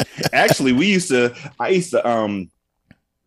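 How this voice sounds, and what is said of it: Usual voice. Nothing is said of it.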